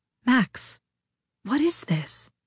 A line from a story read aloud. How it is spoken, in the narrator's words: She asked gently